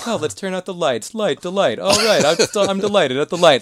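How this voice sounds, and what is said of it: Imitates another person's voice. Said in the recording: “that's my impression of his impression of my brain.”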